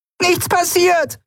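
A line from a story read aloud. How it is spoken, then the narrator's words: Screamed. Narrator (German): schrie sie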